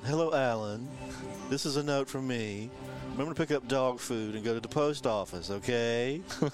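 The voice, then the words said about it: Imitates another person's voice. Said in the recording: “Alan Arkin talks like this, and he does an impression of him”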